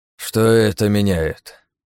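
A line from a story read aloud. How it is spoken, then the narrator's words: Sigh. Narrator (Russian): вздохнул он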